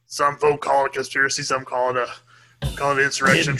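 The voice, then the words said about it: Imitates another person's voice. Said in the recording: “my Alex Jones impression.”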